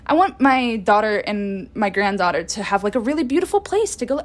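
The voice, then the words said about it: Put-on accent quoting a customer. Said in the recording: “I don't know why I'm doing an accent for this guy and no one else”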